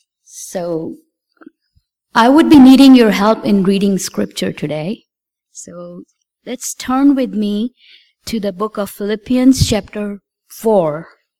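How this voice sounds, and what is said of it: Hoarse, fuzzy-throated voice. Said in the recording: “forgive my voice today. I have a cold ... I have a very fuzzy feeling in my throat”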